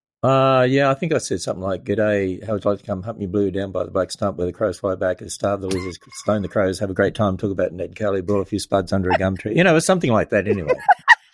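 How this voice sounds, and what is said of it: Fast speech with Australian accent. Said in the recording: “you can talk really fast with your Australian accent”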